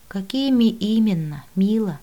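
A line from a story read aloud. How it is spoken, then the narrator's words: Weary sigh. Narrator (Russian): устало вздохнула я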